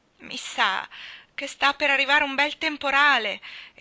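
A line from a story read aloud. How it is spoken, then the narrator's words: Dismayed exclamation. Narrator (Italian): esclamò costernata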